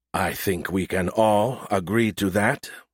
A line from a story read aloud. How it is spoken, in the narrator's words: Admiral Zhao muttered loud enough for everyone to hear